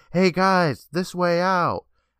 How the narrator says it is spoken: Betty Ann yelled out

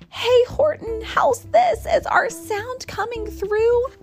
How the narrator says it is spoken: the mayor called up through the howling mad hullabaloo

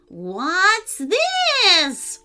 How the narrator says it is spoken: roared the wizard

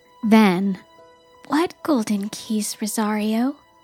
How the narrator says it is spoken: Bibi asked gently

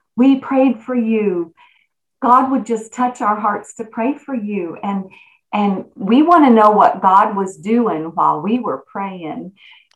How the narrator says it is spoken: people just so kindly said

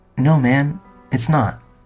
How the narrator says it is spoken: Tim said, stroking his beard nervously

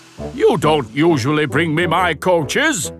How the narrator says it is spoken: Gordon grumbled

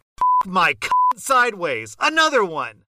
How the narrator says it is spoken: shout, like loudly shout

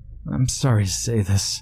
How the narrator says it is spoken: she groaned

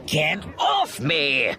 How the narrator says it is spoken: Pressick shouted, struggling to shake him off

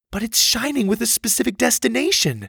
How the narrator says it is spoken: Susie pleaded

